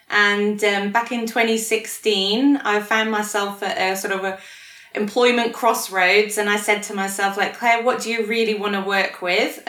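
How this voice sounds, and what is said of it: Non-Australian accent. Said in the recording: “clearly from your accent, you're not from around here originally ... I am working on my Aussie accent. It's just not going very well”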